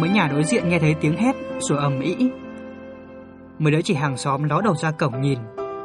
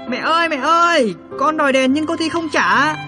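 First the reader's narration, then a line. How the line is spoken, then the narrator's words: Child shouting loudly. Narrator (Vietnamese): hét ầm lên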